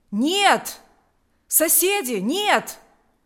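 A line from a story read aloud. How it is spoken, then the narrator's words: Village elder exclaiming. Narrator (Russian): воскликнул староста Савелий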